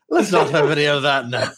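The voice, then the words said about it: Irish-accented character voice. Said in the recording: “Oh, wait, I'm Irish, aren't I? ... Definitely not your character voice. ... Where's my character voice? ... There you go.”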